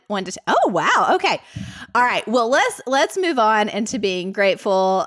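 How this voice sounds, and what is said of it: Mild Southern American accent. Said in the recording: “do I really have a Southern accent? ... Marissa and I both grew up here in Middle Tennessee ... how Southern is my Southern accent? ... it's not like you're not an Alabamian, I don't think ... the scale of my Southern accent”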